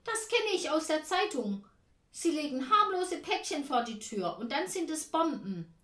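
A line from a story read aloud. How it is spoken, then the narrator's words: Shout. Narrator (German): ruft Tante Ernie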